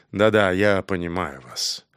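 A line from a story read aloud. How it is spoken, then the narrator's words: Quiet, warming. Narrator (Russian): Старкведдер, похоже, вновь проникаясь к ней симпатией, тихо сказал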